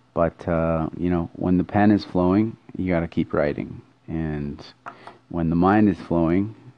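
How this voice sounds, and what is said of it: Tired-sounding voice. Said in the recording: “you can tell by my voice, I'm uh, pretty tired.”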